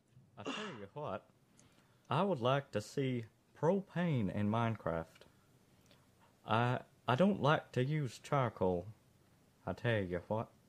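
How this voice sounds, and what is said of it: Hank Hill cartoon character impression. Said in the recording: “Let's hear what Hank Hill has to say ... That impersonation was almost not good enough ... Almost good enough. I was like, oh, hey, that sounds like...”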